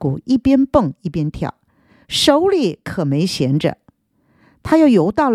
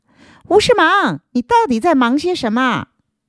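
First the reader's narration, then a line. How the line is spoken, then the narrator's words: Raised voices, asking. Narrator (Chinese): 他们提高声音问道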